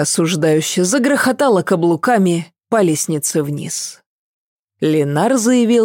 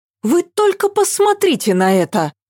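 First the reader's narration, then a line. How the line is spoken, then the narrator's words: Desperate exclamation. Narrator (Russian): воскликнула она с отчаянием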